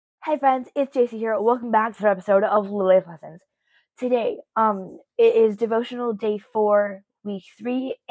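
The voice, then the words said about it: Scratchy, slightly hoarse voice. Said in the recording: “my voice is a little scratchy”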